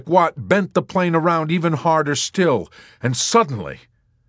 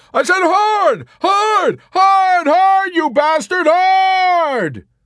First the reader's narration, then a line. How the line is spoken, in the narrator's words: Yossarian hollered